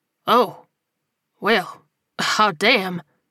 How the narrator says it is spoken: he sighed heavily

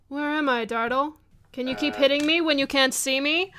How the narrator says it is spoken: he kind of starts taunting you

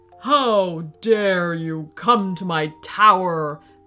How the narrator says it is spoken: boomed the wizard

